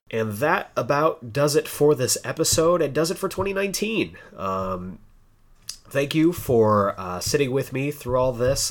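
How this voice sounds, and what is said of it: Sick, off-sounding voice. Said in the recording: “my voice has been just bleh. I'm hoping to get over this, whatever this is”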